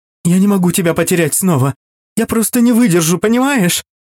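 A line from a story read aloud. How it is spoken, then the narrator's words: Pleading. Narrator (Russian): взмолилась она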